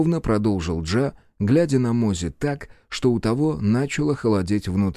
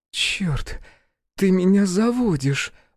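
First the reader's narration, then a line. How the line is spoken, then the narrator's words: Breathless exhale. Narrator (Russian): выдохнула Альбина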